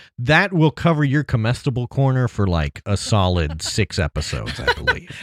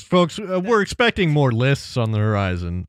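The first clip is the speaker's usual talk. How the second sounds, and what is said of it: Weatherman voice. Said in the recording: “In a weatherman voice.”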